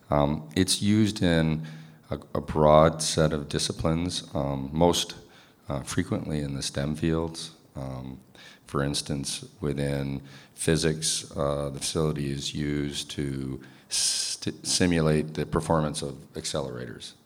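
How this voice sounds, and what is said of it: Hoarse voice recovering from illness. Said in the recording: “excuse my voice. I'm still recovering from a recent cold.”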